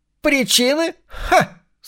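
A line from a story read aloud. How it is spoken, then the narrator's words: Old woman's nasty cackle. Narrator (Russian): Старуха мерзко расхохоталась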